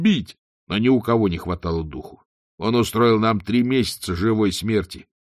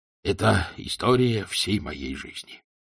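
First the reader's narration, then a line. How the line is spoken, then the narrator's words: Sighing. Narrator (Russian): вздохнул господ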